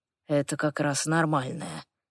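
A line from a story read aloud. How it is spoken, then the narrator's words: Quiet whisper. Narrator (Russian): тихо шепчет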